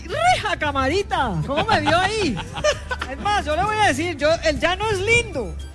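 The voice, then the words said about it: Put-on regional Colombian accent. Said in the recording (Spanish): “se le fue el acento ... A mí se me pegan todos los acentos.”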